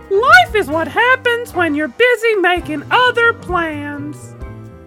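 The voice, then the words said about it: Cartoon character voice, Mickey Mouse-like. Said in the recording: “you already did Mickey Mouse ... That did sound way more like Mickey Mouse than I intended to ... It was Ralphie from The Simpsons”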